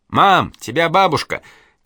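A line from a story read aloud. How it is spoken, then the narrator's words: Shout from another room. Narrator (Russian): крикнула Катя из своей комнаты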